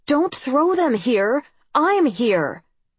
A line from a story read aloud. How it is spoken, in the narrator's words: I shouted